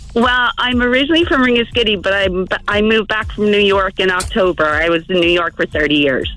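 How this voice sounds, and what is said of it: Slight accent. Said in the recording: “You've got a bit of an accent there”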